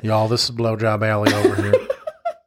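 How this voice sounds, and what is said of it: Bad put-on Southern accent. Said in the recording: “Like in a Southern accent ... That was really bad.”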